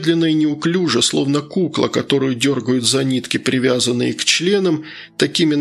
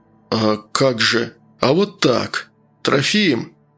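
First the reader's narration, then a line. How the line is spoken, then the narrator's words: Commanding sorcerer's call. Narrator (Russian): приказным тоном позвал колдун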